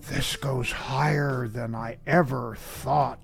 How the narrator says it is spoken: The man shook his head in disbelief, shaken to his very core, before murmuring

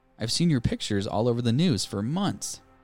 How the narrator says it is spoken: Jack exclaimed

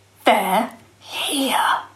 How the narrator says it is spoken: hissed loudly

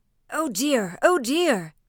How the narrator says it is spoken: cried Master Schultz

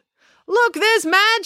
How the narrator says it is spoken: exclaimed April in delight

